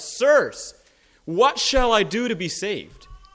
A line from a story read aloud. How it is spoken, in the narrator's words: The Philippian jailer, on recognizing his brokenness, called out